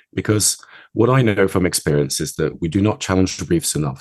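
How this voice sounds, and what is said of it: Slightly off, sick-sounding voice. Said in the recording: “sorry about my voice, by the way. I have a cold today, so my voice is a bit off.”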